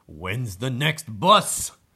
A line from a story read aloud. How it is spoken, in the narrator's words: He grunted